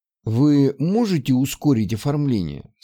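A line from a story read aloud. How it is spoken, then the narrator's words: Plain. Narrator (Russian): спросил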